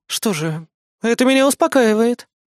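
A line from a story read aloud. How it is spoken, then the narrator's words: Relieved exhale. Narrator (Russian): с облегчением выдохнула Кри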